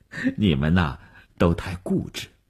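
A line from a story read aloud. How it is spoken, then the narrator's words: Smiling. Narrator (Chinese): 吴晓笑了笑说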